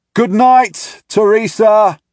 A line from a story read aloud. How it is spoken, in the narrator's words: I yell to her